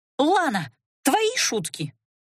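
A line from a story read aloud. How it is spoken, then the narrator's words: Indignant exclamation. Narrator (Russian): возмущенно воскликнула целительница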